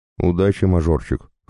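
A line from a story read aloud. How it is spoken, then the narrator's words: Smirking. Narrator (Russian): хмыкнул папа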